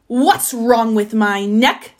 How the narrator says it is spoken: snapped the giraffe

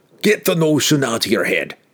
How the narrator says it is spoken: Brunner snapped

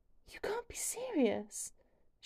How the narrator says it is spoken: gasps out, stifling a laugh

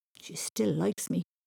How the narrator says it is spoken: Thomas muttered

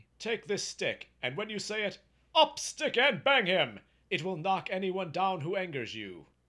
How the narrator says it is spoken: exclaimed he

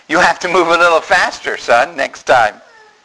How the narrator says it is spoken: the grandfather laughed at him and said

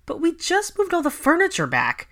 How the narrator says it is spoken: Ginny, Anthony, and Hannah all whined at the same time

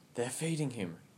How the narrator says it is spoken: whispered Mina

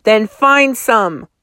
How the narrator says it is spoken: the woman snapped

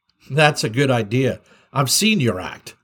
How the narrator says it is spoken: said Yukiko

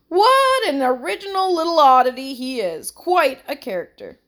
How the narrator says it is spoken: said with a laugh

